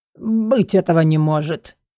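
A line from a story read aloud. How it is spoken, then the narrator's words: Strained, forced out. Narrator (Russian): выдавил клерк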